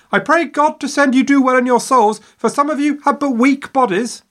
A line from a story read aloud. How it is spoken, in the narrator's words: hanging out of her window, yelling at their backs